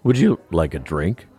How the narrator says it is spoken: My voice cracked as though I was a teenage boy going through puberty again

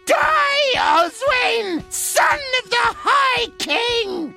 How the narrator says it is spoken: She shrieked

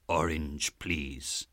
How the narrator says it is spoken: I said mournfully

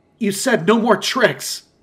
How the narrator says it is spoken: I screamed out at the top of my lungs as the throbbing in my chest and left arm escalated

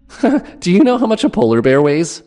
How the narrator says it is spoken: he asked, with that obnoxious giggle of his

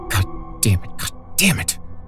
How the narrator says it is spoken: she muttered, and then screamed in frustration

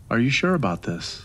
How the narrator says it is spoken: she asked, her voice trembling slightly

